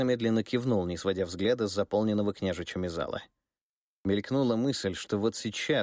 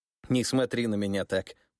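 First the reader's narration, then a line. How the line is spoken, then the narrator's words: Laughing. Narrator (Russian): посмеялся Михаил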